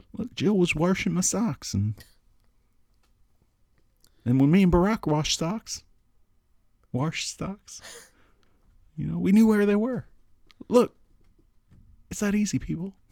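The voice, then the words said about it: Whispery old man, slight Southern twang. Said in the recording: “it's not Southern, but it's something, and he whispers a lot ... You can put a little Southern in there ... Every old person has like a little Southern accent, right? They still say like warsh instead of wash”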